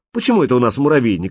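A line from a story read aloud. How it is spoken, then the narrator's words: Offended question. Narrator (Russian): обиженно спросил он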